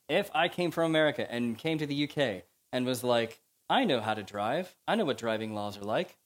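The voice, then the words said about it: American accent. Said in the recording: “as you can tell from my accent, I'm America”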